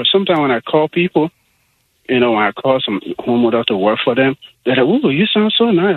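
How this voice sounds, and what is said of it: Friendly voice with an accent. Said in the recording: “You do have a very friendly voice. ... It is a friendly voice. ... accents can either be good for you or against you ... you got a good accent.”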